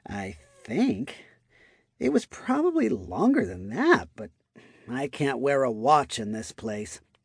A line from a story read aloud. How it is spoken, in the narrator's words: she muttered